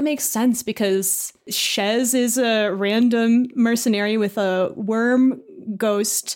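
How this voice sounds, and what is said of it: Usual voice. Nothing is said of it.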